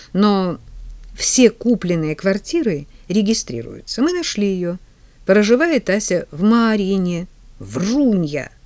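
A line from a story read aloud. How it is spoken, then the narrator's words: Laughing. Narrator (Russian): Ваня рассмеялся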